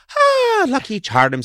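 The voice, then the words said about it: Lucky Charms leprechaun Irish voice. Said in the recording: “the little Lucky Charms man would go like ... it was all kind of like this ... that's how Irish people talked”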